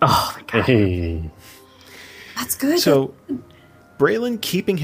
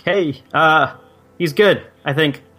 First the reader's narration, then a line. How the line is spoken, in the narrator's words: I'm gonna shout out